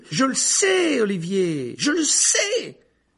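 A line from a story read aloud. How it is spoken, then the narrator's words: Yelling. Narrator (French): hurlait alors Harry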